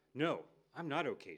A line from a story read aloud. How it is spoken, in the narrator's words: says